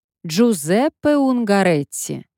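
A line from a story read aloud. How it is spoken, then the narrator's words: Loud announcement. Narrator (Russian): громко объявила она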